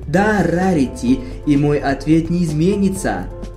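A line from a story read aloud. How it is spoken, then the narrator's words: Plain. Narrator (Russian): ответила Твайлайт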